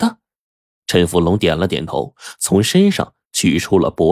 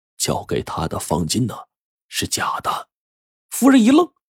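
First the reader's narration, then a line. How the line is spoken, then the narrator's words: Lowered voice. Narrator (Chinese): 陈福龙压低声音告诉夫人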